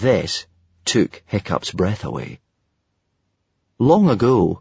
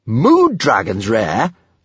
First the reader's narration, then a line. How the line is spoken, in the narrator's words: snorted Kamikaze